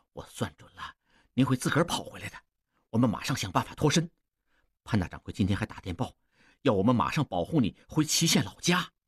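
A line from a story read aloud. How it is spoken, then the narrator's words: Low voice. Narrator (Chinese): 继续低声说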